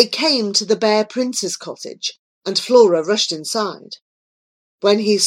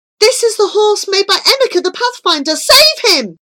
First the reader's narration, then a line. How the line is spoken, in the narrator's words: cried